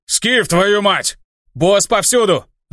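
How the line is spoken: Loud yell. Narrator (Russian): заорал я

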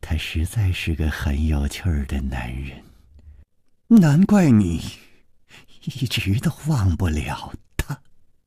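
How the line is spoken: Murmured. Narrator (Chinese): 宫南燕喃喃地说

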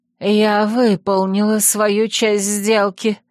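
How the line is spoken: Hoarse voice. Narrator (Russian): хрипло произнесла Моргана

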